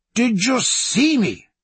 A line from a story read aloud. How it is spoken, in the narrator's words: he cried